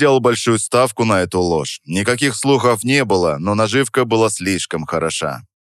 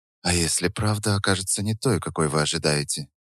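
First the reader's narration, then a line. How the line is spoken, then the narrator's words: Quiet question. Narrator (Russian): тихо спросила Наталья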